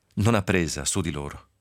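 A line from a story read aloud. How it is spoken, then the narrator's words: Deep sigh. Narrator (Italian): sospirò profondamente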